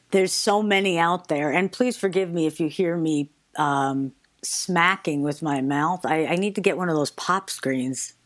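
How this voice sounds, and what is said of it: New York accent. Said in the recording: “Now I'm a singer from New York, according to that accent”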